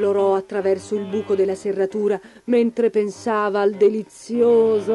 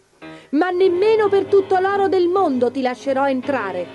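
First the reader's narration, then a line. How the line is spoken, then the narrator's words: Little pig shouting. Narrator (Italian): gridò il secondo porcellino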